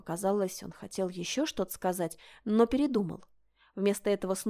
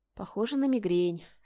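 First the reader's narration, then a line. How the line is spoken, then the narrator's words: Sympathetic sigh. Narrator (Russian): сочувственно вздохнула я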